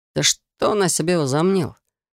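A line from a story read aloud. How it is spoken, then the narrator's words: Through gritted teeth. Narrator (Russian): процедил Алекс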